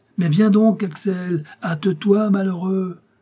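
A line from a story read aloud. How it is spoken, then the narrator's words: Shouting from afar. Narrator (French): s'écria mon oncle du plus loin qu'il m'aperçut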